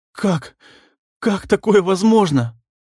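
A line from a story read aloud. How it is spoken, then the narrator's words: Stuttering in shock. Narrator (Russian): Стал он опять заикаться от увиденного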